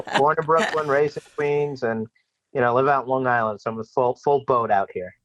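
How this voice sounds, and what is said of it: Slight New York accent. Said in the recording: “I hear a little something in your voice there. Are you from New York?”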